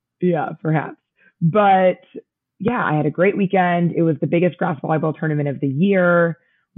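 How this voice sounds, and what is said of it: Mildly hoarse, partly lost voice. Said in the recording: “As you can tell by my voice, I've lost it again, but not nearly as badly ... this is nothing compared to last time”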